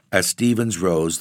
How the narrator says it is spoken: the lawyer said dryly

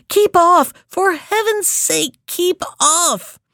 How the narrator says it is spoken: the other two cried

